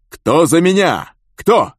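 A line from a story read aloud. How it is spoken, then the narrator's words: Shout. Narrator (Russian): крикнул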